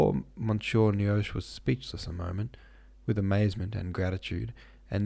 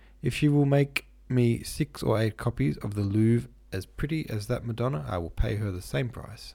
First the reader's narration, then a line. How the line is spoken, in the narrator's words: said Newman